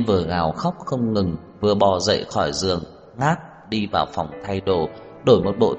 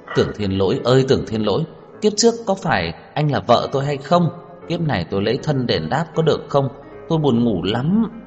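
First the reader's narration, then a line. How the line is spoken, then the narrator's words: Wailing. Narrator (Vietnamese): anh liền gào khóc một tiếng nói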